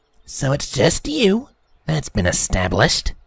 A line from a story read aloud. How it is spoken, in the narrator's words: snarled